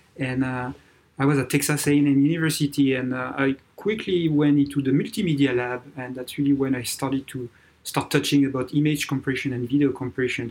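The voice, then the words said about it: French accent. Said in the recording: “you can feel by my accent, I'm French, born and raised in France”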